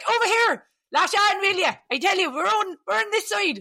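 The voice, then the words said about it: Deliberately bad Irish accent. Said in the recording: “I'm going to do a terrible Irish accent. I apologise now.”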